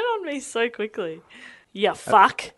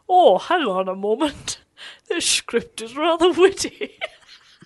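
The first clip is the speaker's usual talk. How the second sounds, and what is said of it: Alan Rickman impression, British accent. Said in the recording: “You'll do your little British accent ... recently deceased legend of stage Rickman ... That was like he was alive again.”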